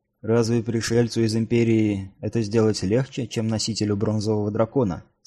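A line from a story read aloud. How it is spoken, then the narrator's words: Calm question. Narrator (Russian): спокойно спросил Эрт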